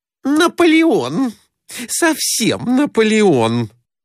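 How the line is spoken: Guffawing laughter. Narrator (Russian): захохотала Глафира Семеновна

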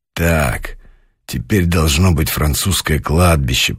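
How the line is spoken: Muttering. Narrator (Russian): пробормотал полковник

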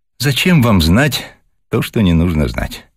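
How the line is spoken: Candid sigh. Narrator (Russian): откровенно вздохнула Вера

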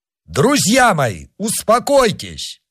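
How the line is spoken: Shout. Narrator (Russian): крикнул

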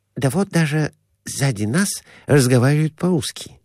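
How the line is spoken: Whispered. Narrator (Russian): шепнул доктор

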